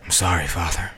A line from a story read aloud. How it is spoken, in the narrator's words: Jamie whispered